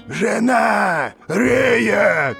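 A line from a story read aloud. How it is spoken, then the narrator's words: Shouting. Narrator (Russian): кричал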